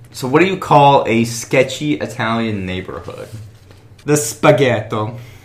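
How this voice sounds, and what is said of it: Playful put-on Italian accent. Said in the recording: “a little bit of accent”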